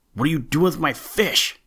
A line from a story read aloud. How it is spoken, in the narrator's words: shouted Billy Mink angrily